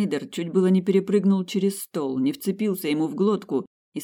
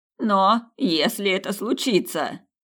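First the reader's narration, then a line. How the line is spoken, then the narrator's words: Wail. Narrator (Russian): взвыл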